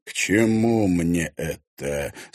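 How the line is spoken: Calm. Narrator (Russian): спокойно произнес его двойник в зеркале

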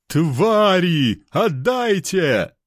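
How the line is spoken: Elf shouting. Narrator (Russian): прокричал эльф

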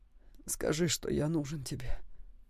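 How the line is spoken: Whisper in ear. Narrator (Russian): прошептал Саймон ей на ухо

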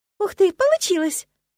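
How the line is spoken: Sincere exclamation. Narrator (Russian): совершенно искренне воскликнула я

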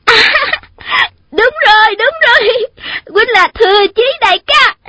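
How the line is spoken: Overjoyed young woman crying out. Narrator (Vietnamese): Thiếu nữ đó mừng quá, quên mất mình đang ở đâu, la lên

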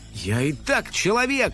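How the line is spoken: Irritated girl. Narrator (Russian): раздраженно напомнила девочка

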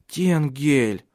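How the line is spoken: Pleading. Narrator (Russian): взмолилась она

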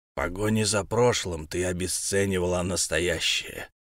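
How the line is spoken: Creaky voice. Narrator (Russian): проскрипел он

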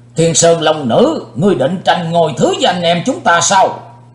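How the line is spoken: Angry loud shout. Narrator (Vietnamese): Đại Ái Phương Sóc dĩ vô lượng tức giận quát to lên

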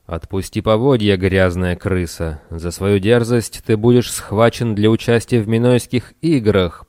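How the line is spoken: Roaring. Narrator (Russian): проревел всадник

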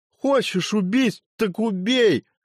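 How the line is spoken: Shout after someone. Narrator (Russian): крикнул знахарь уже в спину

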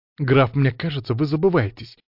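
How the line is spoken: Sharp, offended rebuke. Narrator (Russian): проговорила принцесса

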